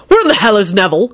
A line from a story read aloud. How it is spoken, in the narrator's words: Quentin barked out